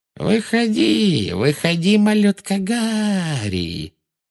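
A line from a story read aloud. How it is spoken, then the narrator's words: Thin mocking sing-song, echoing. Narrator (Russian): пропела она тонким издевательским голоском, и ее слова отразились эхом от начищенного паркета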